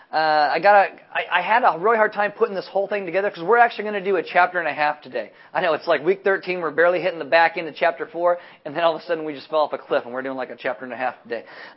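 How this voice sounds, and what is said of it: Talking really fast. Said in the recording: “I've been told I was talking really fast. I normally talk fast, but apparently I'm talking really fast today”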